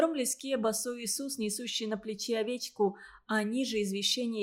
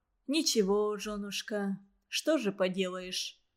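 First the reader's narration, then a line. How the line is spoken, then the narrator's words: Muffled, dull voice. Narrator (Russian): Голос его звучал глухо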